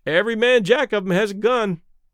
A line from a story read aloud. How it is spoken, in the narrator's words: one of the sailors remarked cheerfully